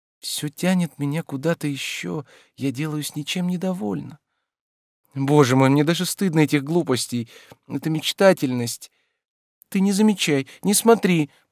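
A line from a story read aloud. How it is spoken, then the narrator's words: Pleading. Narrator (Russian): прибавила она умоляющим голосом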